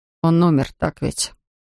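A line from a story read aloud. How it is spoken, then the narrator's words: Quiet confession. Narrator (Russian): тихо призналась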